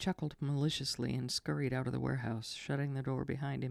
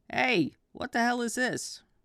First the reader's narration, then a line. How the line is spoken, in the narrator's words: Ray yelled after him